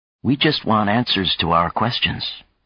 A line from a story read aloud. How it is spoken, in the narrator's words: Chang said gently